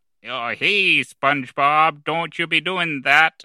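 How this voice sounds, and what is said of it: Squidward impression. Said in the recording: “my Squidward impression.”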